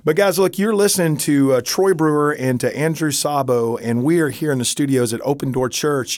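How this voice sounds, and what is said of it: Hoarse voice. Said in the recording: “I'm a little bit hoarse today ... dadgum Texas allergies”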